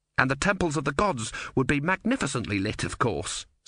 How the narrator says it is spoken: said Erne quickly

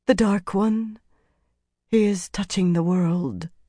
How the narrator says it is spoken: she said softly

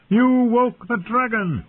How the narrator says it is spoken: he screamed

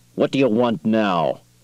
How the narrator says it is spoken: Quayle said harshly

